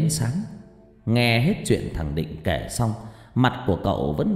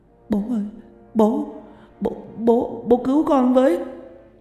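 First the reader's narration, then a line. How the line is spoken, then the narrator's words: Boy whimpering tearfully. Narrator (Vietnamese): Thằng Định mếu máo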